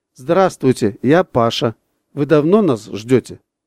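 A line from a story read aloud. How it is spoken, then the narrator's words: Plain. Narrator (Russian): спросил Паша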